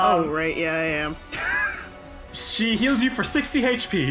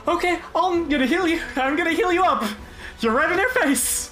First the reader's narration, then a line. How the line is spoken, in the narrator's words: Briar lets out a gasp of terror, and she's like